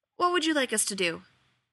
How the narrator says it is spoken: Grodin asked, breathing a sigh of relief

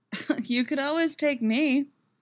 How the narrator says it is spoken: she laughs

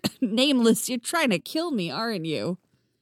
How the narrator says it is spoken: Chrissy laughed

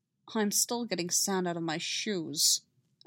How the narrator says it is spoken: Obi-Wan grumbles

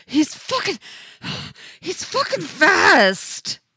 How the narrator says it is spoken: he gasps

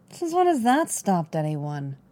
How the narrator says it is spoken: Fennec scoffed

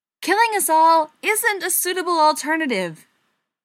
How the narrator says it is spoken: Joe yelled

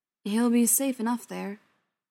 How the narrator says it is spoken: John said

